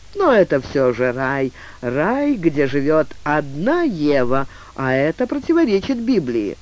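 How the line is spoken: Cheerful, consoling. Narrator (Russian): Фанфан, чтобы хоть на миг отвлечь ее от тяжелых воспоминаний, весело добавил

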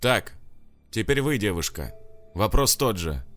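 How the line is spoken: Stern tone. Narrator (Russian): строгим тоном сказал полицейский

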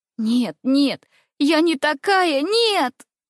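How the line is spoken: Moaning, crying, sobbing. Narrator (Russian): Вырвалась со стоном и криком из моей груди, и я, рыдая

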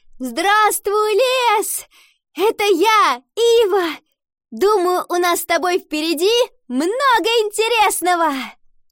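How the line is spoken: Shouted upward. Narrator (Russian): Подняв голову, она крикнула

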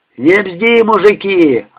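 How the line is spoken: Yelling. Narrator (Russian): орал Куник

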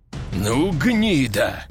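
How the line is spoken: Through gritted teeth. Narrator (Russian): процедил сквозь зубы генерал

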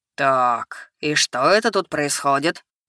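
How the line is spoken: Deep chesty voice. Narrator (Russian): спросил кто-то низким грудным голосом

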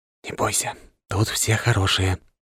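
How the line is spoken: Whispered. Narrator (Russian): прошептал

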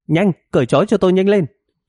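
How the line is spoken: Loud command. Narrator (Vietnamese): sư tử Juliet lớn tiếng ra lệnh

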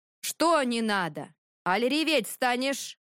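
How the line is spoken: Shouting. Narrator (Russian): Хотел крикнуть

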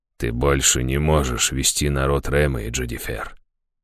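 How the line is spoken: Quiet but firm. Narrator (Russian): тихо, но твердо сказала Лазарес

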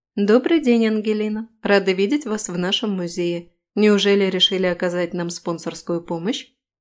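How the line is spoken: Businesslike. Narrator (Russian): Произношу деловым тоном

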